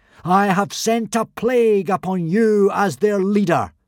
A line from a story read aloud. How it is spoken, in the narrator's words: boomed Hiccup solemnly